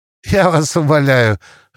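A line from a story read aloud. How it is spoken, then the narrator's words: Laughing. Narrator (Russian): рассмеялась Алиса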